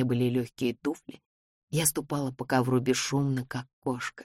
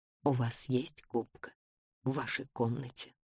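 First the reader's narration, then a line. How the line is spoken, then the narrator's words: Whispered question. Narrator (Russian): спросил шепотом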